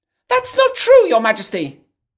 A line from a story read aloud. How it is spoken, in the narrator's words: the Hare shouts